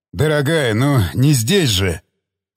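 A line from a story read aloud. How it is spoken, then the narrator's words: Breathless mumble. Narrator (Russian): Пробормотал тяжело дыша Тигран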